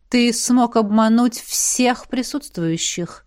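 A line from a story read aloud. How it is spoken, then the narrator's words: Thoughtful drawl. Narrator (Russian): задумчиво протянула Элисандра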